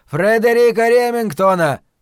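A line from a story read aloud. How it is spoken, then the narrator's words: Shouted at full volume. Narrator (Russian): прокричал он во всю мощь легких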